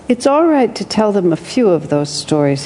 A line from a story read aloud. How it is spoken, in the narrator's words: he said